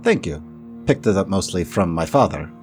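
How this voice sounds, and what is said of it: Character voice with unusual accent. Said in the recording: “That's a very unique accent.”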